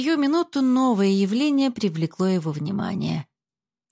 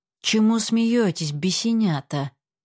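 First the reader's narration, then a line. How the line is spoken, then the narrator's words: Angry. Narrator (Russian): сказал им сердито кузнец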